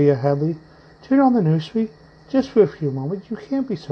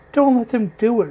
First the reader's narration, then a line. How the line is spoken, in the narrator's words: wailed Peter